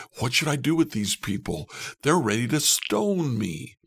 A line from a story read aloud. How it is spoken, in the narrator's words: Moses cried out